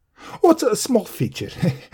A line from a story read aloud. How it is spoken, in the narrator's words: the small man tittered nervously